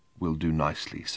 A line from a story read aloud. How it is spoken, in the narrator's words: said the barman in a barely audible whisper from between dry lips